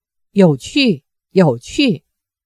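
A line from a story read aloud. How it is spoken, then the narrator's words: Young woman giggling softly. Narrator (Chinese): 那文秀少女扑哧一笑，低声说道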